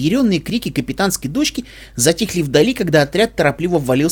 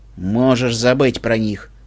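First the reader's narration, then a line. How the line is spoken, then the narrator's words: Gloomy reply. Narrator (Russian): мрачно ответил Себастьян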